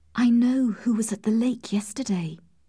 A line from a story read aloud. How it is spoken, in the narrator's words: she whispered